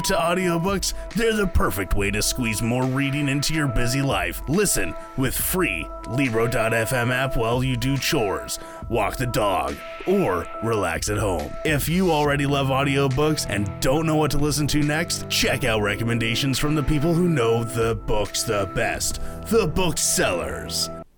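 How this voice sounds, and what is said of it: Radio announcer movie trailer voice. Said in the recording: “that was your best radio voice. Yeah, it was like radio slash movie trailer voice.”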